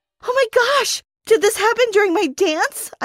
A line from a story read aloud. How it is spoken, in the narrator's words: gasped